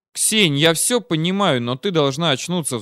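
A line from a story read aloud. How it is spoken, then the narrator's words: Sighing. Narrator (Russian): вздохнул я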